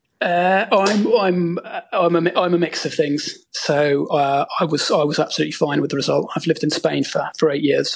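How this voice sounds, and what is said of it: English accent. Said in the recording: “I'm detecting by your accent you might be an English fan”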